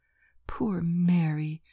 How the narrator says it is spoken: murmured Lena, with what I considered most admirable presence of mind

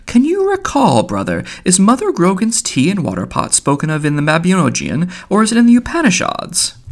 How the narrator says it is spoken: asked in a fine, puzzled voice

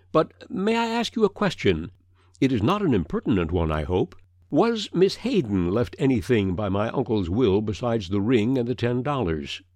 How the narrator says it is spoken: said Gillian cheerfully

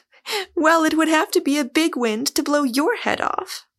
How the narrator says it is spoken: She broke into a laugh and said

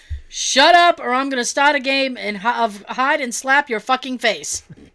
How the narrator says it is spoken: some guy shouted

